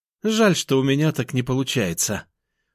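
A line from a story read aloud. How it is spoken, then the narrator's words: Sighing, little sister. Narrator (Russian): вздохнула сестренка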